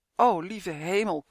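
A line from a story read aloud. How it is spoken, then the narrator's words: Groaning. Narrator (Dutch): kreunde Uf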